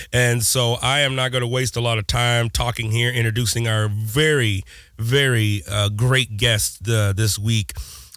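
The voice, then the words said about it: Hoarse, sick-sounding voice. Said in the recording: “if you can tell by my voice, I'm a little under the weather right now ... I sound way worse than I actually feel ... sore throat ... completely lost my voice”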